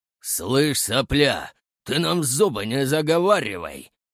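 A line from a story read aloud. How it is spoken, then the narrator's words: Fighter's growl. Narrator (Russian): прорычал второй боец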